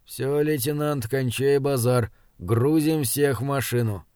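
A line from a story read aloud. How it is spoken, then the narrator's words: Quiet. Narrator (Russian): Стоящий рядом с Бирюковым чекист тихо произнес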